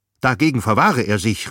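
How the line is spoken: Shrill cry. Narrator (German): rief Vogt mit schriller Stimme

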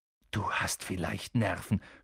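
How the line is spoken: Groaning. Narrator (German): stöhnte Ron

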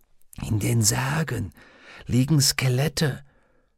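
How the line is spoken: Whisper. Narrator (German): flüsterte Roger

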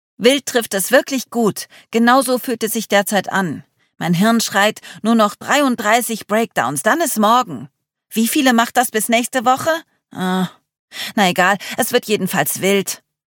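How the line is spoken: Calling out. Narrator (German): Charlie rief

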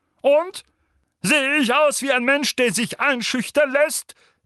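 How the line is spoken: Uncle barking. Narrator (German): bellte Onkel Vernon

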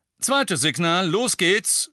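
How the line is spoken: Loud speech. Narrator (German): sagte Lupin laut

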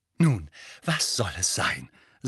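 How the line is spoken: Breathless. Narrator (German): sagte sie atemlos

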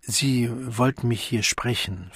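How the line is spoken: Ridiculously quiet question. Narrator (German): fragte, lächerlich leise

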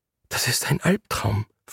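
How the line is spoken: Whispered. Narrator (German): flüsterte sie

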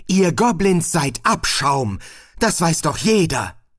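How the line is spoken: Shouted. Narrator (German): schrie

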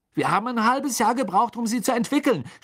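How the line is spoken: Angry shout. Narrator (German): schrie Fred seine Mutter an, als sie die Toffees wegwarf

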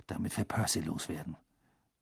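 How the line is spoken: Murmured. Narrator (German): murmelte Ron Harry zu

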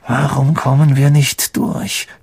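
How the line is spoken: Hissed. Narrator (German): zischte Harry

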